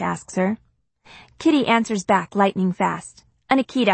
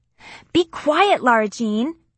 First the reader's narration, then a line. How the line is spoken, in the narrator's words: she screeches